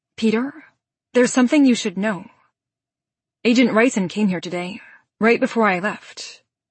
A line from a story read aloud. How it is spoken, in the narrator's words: I say in a calmer tone